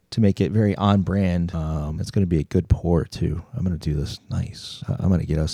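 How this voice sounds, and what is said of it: Deep, groggy just-woke-up voice. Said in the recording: “You sound like you just woke up from a nap. ... I feel like I could give Will Arnett a run for his money right now.”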